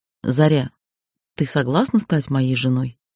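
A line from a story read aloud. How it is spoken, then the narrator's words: Serious question. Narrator (Russian): абсолютно серьезным тоном спросил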